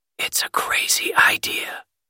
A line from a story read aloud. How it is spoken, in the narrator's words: said Sprout, this time with a bit of a whispery sound